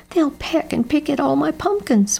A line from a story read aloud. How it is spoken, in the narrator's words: wailed Jeb